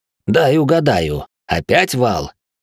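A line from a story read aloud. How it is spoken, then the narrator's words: Smirking snort. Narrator (Russian): хмыкнул мастер боевых искусств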